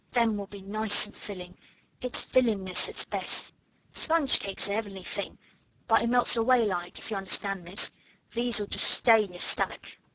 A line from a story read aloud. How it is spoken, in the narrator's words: she murmured